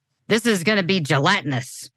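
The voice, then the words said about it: Poor imitation of another person's voice. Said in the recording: “in a Louis Armstrong voice ... that was not a very good Louis Armstrong impression”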